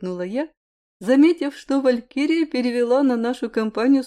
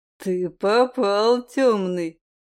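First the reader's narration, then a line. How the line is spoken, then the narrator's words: Smirking snort. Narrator (Russian): хмыкнул Айрилет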